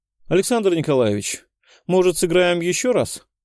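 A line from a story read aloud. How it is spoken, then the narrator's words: Indifferent tone. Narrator (Russian): безразличным тоном предложил я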